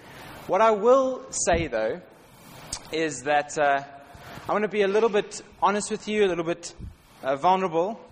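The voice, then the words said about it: South African accent. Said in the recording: “by my accent, I'm not from Bournemouth. I'm from South Africa”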